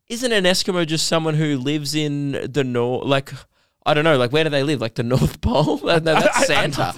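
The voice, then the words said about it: Speaks with a noticeable accent. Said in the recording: “Santa sounds so good in your accent.”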